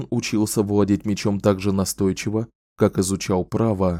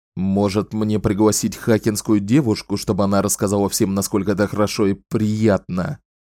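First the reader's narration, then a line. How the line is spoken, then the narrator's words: Barked. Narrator (Russian): рявкнул Далтон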